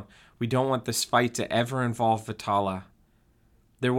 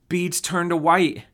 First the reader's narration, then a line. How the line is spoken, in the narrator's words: Josie cried out